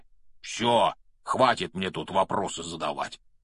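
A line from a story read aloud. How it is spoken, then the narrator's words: Grumbling. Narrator (Russian): проворчал Хагрид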